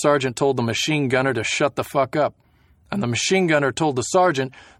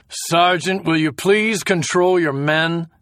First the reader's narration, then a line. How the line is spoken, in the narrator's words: The major looked annoyed and shouted